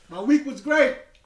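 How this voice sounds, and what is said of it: Yelling. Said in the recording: “Why are you yelling? ... Why is ... yelling?”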